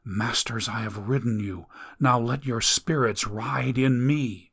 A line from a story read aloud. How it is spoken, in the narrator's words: whispered